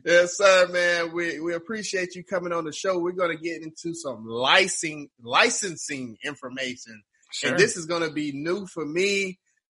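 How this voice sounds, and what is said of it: Southern US accent. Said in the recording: “It's got your accent, which I love. ... Down south”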